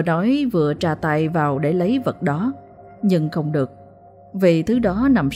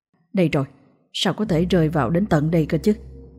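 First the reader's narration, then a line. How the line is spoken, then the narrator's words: Muttering. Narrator (Vietnamese): miệng lẩm bẩm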